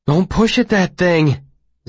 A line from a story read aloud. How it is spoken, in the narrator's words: Simon said nervously